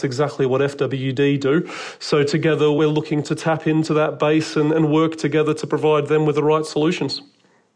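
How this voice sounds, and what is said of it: Australian accent. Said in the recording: “I can hear from your accent that you're an Aussie ... even with an Australian accent”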